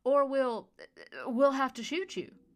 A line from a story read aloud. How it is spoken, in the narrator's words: caught the security detail leader off guard, enough that he questioned his own authority, as he stammered